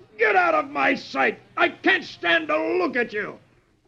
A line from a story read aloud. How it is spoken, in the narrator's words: the sergeant, aching from the two kicks, roars